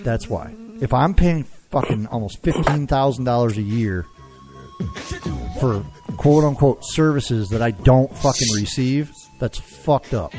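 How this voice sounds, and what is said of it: Yelling angrily, strained voice. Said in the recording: “I'm yelling as hard as I am ... I have no voice”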